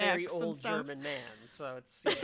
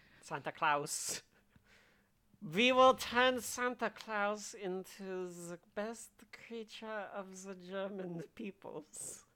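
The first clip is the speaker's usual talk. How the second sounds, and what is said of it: Put-on German accent. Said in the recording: “Santa Claus is clearly doing, like, a German accent”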